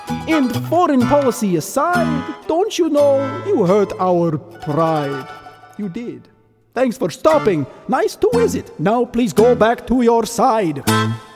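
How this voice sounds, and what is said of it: Sung with a put-on Russian accent. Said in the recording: “a song in a Russian accent ... crazy face I make when I'm doing a Russian accent”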